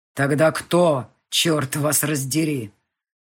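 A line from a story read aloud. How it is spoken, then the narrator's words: Growl. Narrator (Russian): прорычал Ник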